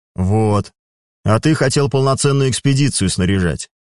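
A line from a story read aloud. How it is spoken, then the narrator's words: Said, then a chuckle. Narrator (Russian): сказал Хорвард Забияка, главе отделения секты Луны и Солнца, и, не удержавшись, хмыкнул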